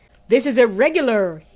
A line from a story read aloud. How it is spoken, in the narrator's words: he cried